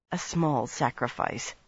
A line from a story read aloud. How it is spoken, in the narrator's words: she muttered